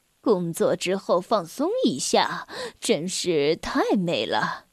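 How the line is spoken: Happy sigh. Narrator (Chinese): 格拉夫大叔幸福的感叹说

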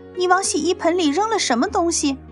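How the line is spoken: Shout. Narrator (Chinese): 露西又大叫起来

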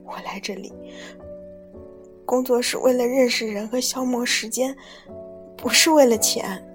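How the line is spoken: Sobbing. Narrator (Chinese): 他抽泣地说道

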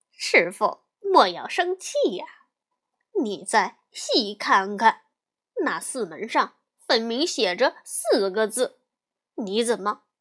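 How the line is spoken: Laughing, placating. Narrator (Chinese): 悟空笑着说

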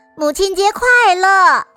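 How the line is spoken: Loud greeting. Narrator (Chinese): 詹姆士大声的说出了祝福

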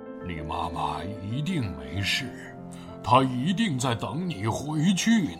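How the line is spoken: Gentle. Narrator (Chinese): 霸王龙温柔地说

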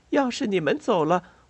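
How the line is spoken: Soft sigh. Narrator (Chinese): 巴贝特轻叹一口气

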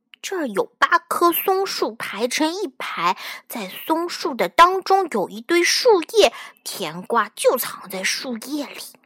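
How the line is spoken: Whispering to oneself. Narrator (Chinese): 小声对自己说

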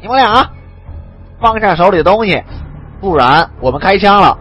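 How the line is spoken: Nasal shout, nose pinched. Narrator (Chinese): 二鬼子翻译捏着鼻子叫道

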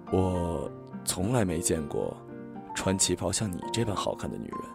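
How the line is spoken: Low whisper. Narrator (Chinese): 他仿佛耳语般的低声说

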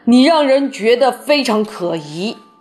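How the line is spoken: Roaring shout. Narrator (Chinese): 他咆哮着大叫

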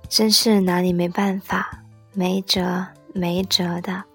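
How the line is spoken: Gentle. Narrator (Chinese): 温柔的……说

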